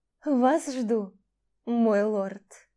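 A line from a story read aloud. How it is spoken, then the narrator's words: Languid purr. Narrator (Russian): Томно промурлыкала миледи Гарнус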